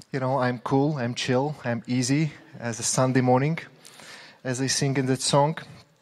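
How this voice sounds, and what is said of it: Accent that sounds angry. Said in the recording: “because of my accent, I sound like I'm angry all the time ... It's just an accent”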